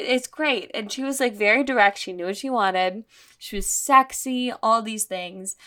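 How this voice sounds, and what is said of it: Usual voice. Nothing is said of it.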